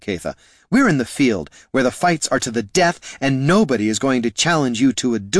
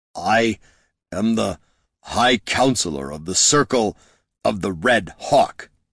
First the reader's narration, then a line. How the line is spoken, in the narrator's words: he spat through gritted teeth